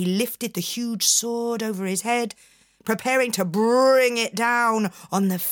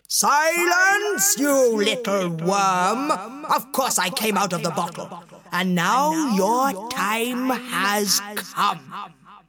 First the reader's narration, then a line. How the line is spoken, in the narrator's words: The genie roared